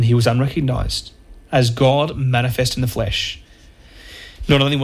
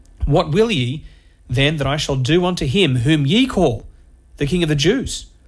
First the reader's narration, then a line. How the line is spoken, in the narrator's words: they cried out again